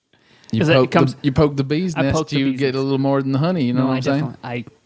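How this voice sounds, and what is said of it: Put-on accent. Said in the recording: “a new accent”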